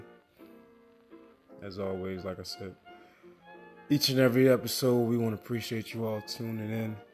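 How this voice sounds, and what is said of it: Low late-night radio-style voice. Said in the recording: “excuse my voice, excuse my tone. Probably sound like some radio late night shit”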